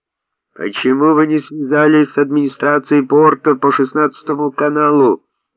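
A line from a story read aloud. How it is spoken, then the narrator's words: Official yelling in English. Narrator (Russian): вопил представитель иммиграционной полиции по-английски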